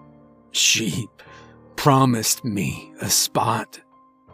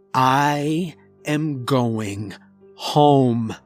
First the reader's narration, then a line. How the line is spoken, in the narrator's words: I said slowly to emphasize my point